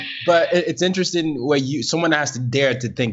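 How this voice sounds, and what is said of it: Usual voice. Nothing is said of it.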